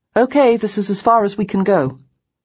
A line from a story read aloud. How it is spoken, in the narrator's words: called out